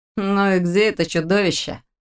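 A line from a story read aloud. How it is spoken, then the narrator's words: Lazy question. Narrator (Russian): лениво поинтересовался Лерик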